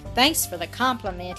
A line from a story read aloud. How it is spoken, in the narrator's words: he answered with a bitter laugh